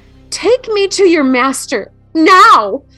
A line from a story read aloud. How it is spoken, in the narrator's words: she spat out angrily